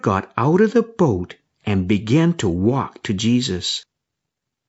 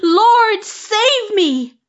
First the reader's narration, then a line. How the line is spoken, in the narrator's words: He cried out